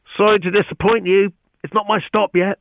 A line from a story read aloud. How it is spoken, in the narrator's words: called out to him, feeling very pleased with herself